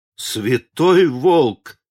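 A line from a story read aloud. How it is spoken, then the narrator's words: Women exclaiming in unison. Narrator (Russian): в один голос воскликнули женщины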